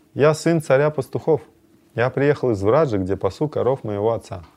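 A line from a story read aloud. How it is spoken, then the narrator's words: Gentle smiling young man. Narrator (Russian): Мягко улыбнувшись, юноша ответил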